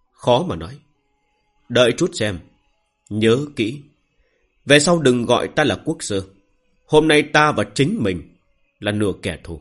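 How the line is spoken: Sighing. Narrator (Vietnamese): Thôi Đông Sơn thở dài

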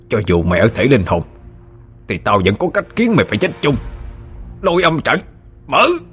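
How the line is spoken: Snarling through teeth. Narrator (Vietnamese): Hắn nhe hàm răng ra mà gằn giọng nói

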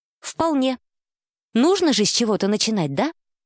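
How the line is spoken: Snorting. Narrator (Russian): Александр Витольдович хмыкнул

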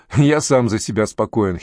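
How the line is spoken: Giggling. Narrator (Russian): хихикнул Николай

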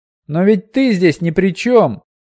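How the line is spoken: Heated exclamation. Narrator (Russian): горячо воскликнул Пьемур

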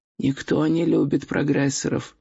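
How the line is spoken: Muttered. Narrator (Russian): пробормотал Горбовский

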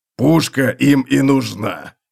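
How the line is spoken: Grumbled. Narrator (Russian): проворчал Готрек

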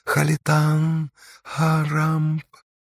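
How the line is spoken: Whispered into ear. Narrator (Russian): почти ощутимо зашептала в ухо Байте

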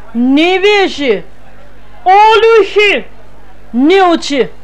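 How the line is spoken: Loud shouting woman. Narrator (Russian): кричала на весь вокзал клетчатая дама

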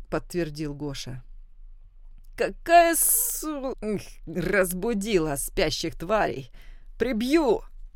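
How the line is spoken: Hoarse wheeze. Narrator (Russian): просипел Ник

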